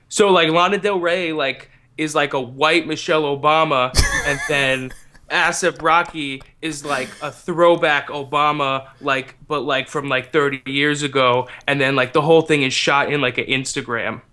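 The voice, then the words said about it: Impression of a YouTube-generation speaker. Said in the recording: “do an impression of someone from this generation that we keep talking about, this YouTube generation”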